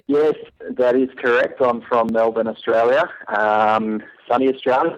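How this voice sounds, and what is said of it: Australian accent. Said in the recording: “I hear that Australian accent there.”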